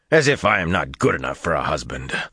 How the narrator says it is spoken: Gaul snorted angrily

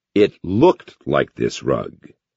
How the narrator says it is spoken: Hall said slowly

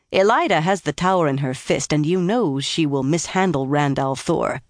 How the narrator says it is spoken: Swan said scornfully

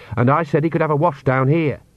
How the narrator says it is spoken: said Agnes sharply

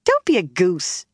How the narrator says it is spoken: Egwene said sharply before she thought

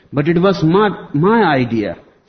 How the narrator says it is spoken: shouted Mama

